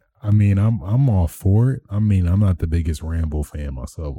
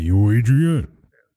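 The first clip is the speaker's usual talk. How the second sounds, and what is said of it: Imitates another person's voice. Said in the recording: “That's my impression. It's great, eh?”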